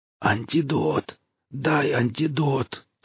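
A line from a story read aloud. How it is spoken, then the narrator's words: Stranger moaning. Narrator (Russian): стонал незнакомец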